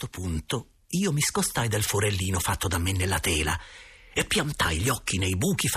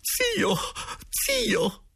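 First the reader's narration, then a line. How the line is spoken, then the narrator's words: Exclaiming. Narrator (Italian): esclamò la signora Geltrude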